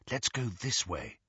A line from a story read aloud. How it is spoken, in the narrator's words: Hermione murmured